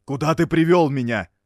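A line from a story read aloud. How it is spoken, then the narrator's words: Shouting. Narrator (Russian): закричал Амера музыканту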